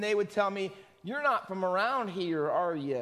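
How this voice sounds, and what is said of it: Usual voice. Nothing is said of it.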